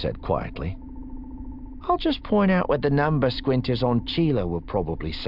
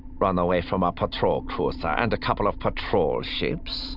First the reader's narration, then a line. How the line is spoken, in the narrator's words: Aralani scoffed